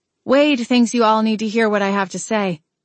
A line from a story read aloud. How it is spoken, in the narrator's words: I replied